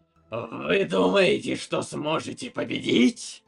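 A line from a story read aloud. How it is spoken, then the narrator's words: Bark. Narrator (Russian): Рявкнул король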